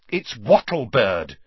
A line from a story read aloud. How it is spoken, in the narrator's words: said Hermione impatiently